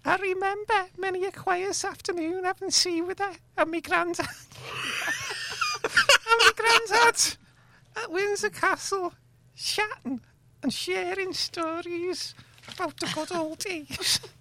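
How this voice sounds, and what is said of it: Put-on Scouse accent. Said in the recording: “that's how he speaks ... That's his real accent ... He puts a posh one on ... he's really, he's a Scouser”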